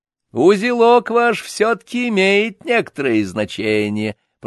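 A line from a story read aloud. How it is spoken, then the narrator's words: Official continuing after laughter. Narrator (Russian): продолжал чиновник, когда нахохотались досыта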